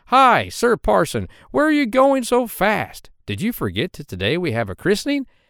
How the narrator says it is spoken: This so astonished him that he called out

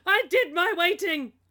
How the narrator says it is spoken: Crazy Gary Oldman screams

